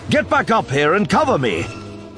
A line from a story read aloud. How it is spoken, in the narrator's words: Kenobi shouted